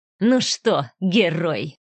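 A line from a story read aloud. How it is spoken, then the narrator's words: Nasty mocking hiss. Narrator (Russian): прошипел он, растягивая губы в мерзкой улыбке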